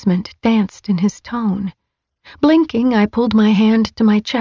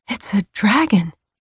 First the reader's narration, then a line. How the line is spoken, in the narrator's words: I murmured